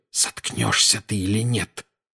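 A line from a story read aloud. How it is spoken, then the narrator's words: Hiss. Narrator (Russian): прошипел Гарри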